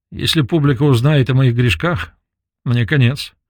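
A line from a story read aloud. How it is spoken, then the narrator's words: Joking tone. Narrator (Russian): сообщила она шутливым тоном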